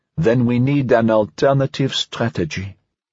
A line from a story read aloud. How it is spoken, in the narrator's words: Aumagnier answered calmly